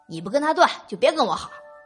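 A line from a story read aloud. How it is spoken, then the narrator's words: Shouting from behind. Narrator (Chinese): 沈帅在他后面喊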